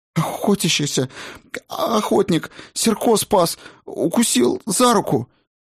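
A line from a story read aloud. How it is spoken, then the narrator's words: Sobbing, barely intelligible. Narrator (Russian): Слова получались едва различимыми, смешанные с бурными рыданиями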